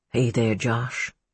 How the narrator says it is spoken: he said quietly

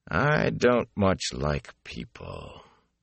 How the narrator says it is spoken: he said in a flat voice

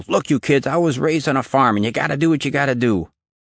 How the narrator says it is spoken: Jimmy had yelled

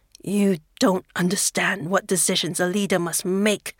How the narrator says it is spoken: he growls

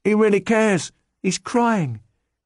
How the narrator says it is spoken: an elderly woman called out

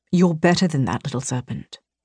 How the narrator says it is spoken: Vincent whispered in my ear

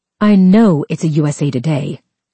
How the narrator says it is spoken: she snapped

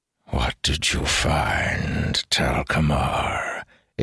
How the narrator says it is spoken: It hissed mockingly

